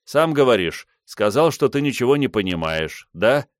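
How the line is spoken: Sarcastic snort. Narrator (Russian): Бенвенуто саркастически хмыкнул

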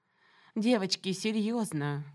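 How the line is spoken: Sighing. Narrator (Russian): куратор вздохнула

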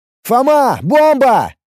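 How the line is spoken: Shout. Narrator (Russian): Крикнул я

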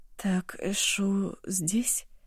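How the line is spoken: Mutter. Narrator (Russian): пробормотала Ашун

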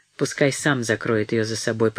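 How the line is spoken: Grumbled. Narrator (Russian): пробурчал он

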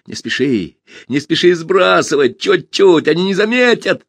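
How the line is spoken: Shout. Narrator (Russian): Пашка закричал

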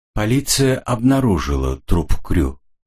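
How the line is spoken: Calm, in French. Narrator (Russian): спокойно сообщила она по-французски

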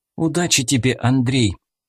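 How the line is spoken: Anxious, into headset. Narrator (Russian): взволнованно сказала в наушник Аня

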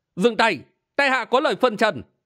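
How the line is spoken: Loud shout. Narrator (Vietnamese): Triệu Sĩ Nguyên quát lớn

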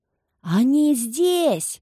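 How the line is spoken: Yelling. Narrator (Russian): завопил Педрита

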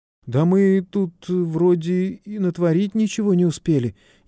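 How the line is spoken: Frightened whisper. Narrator (Russian): испуганно прошептал Давыдов

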